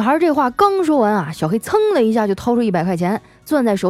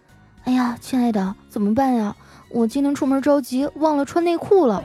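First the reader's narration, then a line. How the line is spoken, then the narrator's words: Quiet murmur. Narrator (Chinese): 那女孩啊小声的嘀咕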